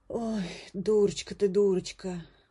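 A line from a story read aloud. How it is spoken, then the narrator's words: Sighing cook. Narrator (Russian): вздохнула повариха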